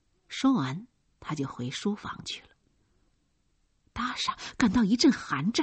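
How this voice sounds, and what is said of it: Usual voice. Nothing is said of it.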